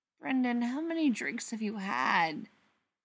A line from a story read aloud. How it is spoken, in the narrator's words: Spencer sighs